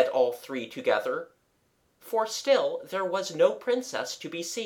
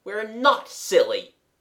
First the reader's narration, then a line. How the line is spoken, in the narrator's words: said Jimmy, and his voice was cross too